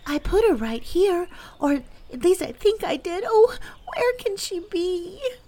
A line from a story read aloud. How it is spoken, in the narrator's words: cried